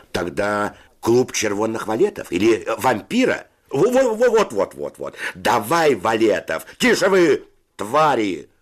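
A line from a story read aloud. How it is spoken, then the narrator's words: Shouted. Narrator (Russian): закричал Федя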